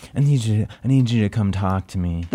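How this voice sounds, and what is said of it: Imitates another person's voice. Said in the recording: “That's a great impression.”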